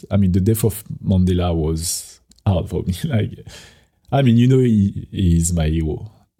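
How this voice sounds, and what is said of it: Emotional, moved voice. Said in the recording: “getting emotional”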